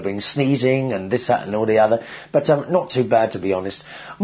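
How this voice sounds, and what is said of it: Rusty, husky voice. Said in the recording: “my voice is a little bit rusty, a little bit husky, a very sexy voice I've got today. Yes, I've got a cold.”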